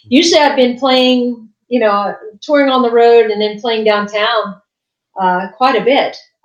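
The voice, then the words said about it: West Virginia accent. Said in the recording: “I'm originally from West Virginia ... I hear um, the accent.”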